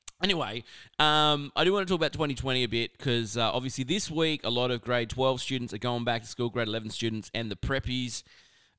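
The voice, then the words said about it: Slightly croaky voice. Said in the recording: “my voice has just got a little bit of a croak in it”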